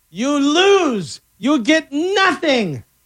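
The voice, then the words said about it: Willy Wonka character impression. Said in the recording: “Willy Wonka ... my fantastic impression ... That was pretty good ... Not bad.”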